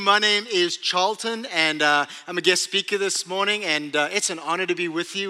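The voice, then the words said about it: South African accent. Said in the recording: “this little thing I have called an accent... Yeah, South African.”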